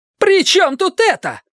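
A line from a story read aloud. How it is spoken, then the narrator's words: Shouting. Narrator (Russian): кричала Ева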